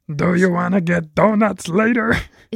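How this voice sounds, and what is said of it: Immature, Cookie Monster-like character voice. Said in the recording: “That was my imitation of an immature person. ... You just sound like the Cookie Monster.”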